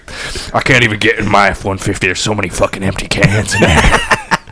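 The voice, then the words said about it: Macho beer-commercial character voice. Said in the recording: “can do a good beer voice.”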